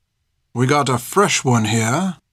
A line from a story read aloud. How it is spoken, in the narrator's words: he whispered to his friend